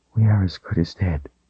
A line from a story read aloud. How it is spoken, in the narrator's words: she whispered